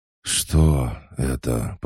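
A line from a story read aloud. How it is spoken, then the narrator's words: Hoarse rasp. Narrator (Russian): прохрипел Хаджар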